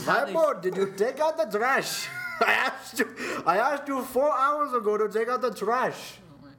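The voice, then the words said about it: Mock imitation of parents' accent. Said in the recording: “he always tries to make fun of my parents' accent ... That's not even close.”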